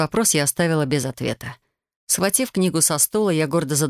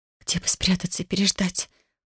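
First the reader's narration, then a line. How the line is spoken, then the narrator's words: Whisper. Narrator (Russian): прошептала я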